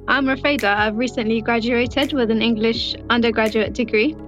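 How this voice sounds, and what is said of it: Speaks English with an accent. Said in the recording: “you wouldn't notice that she has an accent”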